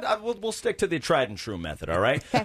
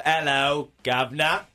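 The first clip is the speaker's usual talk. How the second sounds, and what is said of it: Weak attempt at British accent. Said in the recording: “I can't do the British accent. ... not the one I'm looking for. ... A little more cockney.”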